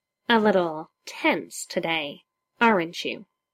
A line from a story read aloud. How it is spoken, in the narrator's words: he hisses, his mouth right next to Bruce's ear